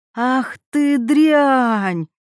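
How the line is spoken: Shouting. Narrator (Russian): закричала она

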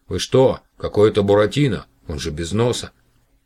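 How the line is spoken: Angry. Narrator (Russian): Продавец сердито сказав

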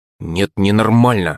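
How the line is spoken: Through gritted teeth. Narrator (Russian): процедила Юленька

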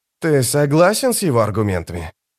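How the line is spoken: Sigh. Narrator (Russian): Дукер вздохнул

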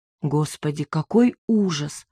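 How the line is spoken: Said quietly. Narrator (Russian): сказала я тихо

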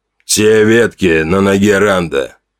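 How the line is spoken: Muffled question. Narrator (Russian): глухо спросил Горм

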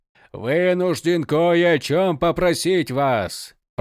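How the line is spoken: Thundering dragon voice. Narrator (Russian): прогремел красный дракон

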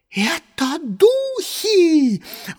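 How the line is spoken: Shrill shriek, regaining speech. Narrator (Russian): взвизгнула миссис Холл, обретя, наконец, дар речи

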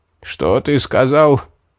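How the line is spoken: Hoarse question. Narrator (Russian): переспросил осипшим голосом маг

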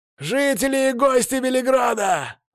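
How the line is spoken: Loud herald yelling. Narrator (Russian): снова завопил голосистый глашатый

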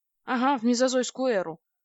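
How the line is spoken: Gloomy. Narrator (Russian): мрачно ответил он

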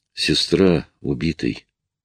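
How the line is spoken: Low-voiced reply. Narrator (Russian): вполголоса ответил

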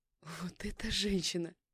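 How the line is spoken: Speaking through laughter. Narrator (Russian): проговорила сквозь смех

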